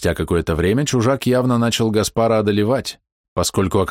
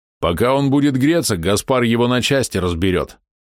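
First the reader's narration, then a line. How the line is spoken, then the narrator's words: Unsure snort. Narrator (Russian): хмыкнул Блез, правда, без особой уверенности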